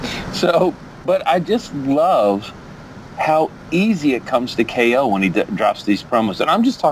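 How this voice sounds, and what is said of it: Usual voice. Nothing is said of it.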